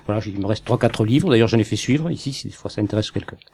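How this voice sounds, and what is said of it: Southern French accent. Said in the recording (French): “mon accent... j'ai l'accent du sud”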